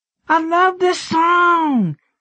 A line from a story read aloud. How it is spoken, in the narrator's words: she shouted